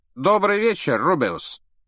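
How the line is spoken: Loud. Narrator (Russian): громко произнес Реддл

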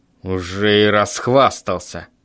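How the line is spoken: Grumbling. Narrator (Russian): пробурчал папа

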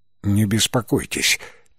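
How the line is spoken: Quiet. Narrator (Russian): тихо произнес Венабл

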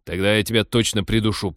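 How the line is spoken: Irritated growl. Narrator (Russian): прорычал пилот, представив, что очередь удлинится еще на одного человека

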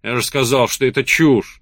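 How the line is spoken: Barking. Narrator (Russian): рявкнул Колин

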